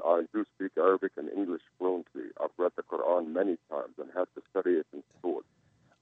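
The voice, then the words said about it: English with an Arabic accent. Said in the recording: “I can hear the beauty of your Arabic accent through your English”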